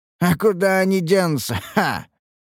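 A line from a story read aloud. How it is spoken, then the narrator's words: Laughing. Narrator (Russian): рассмеялся охранник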